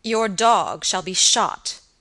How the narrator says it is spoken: answered Sir Michael angrily

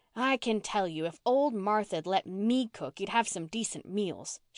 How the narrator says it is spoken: she told the manse children indignantly

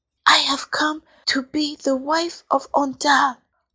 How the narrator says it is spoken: the princess whispered

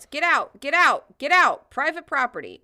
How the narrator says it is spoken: Mark McCloskey shouts

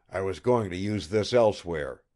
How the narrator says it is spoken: he said

